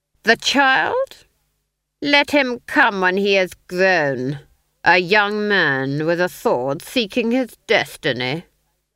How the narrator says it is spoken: the Duke sneered

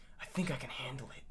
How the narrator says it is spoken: Neo whispered

